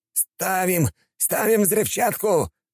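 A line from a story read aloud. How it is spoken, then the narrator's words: Shouting. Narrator (Russian): кричал хан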